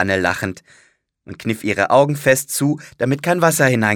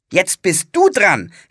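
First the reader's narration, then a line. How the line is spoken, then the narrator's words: Called out. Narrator (German): rief sie ihrem Bruder zu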